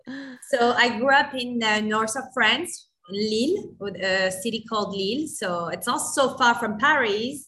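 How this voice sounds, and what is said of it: French accent. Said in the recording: “originally from France. You can hear from my accent, right? ... I love your accent. It's beautiful.”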